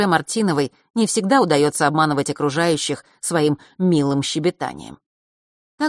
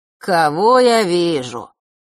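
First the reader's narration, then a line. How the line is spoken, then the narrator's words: Sudden mocking drawl. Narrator (Russian): вдруг протянул у нее за спиной знакомый насмешливый голос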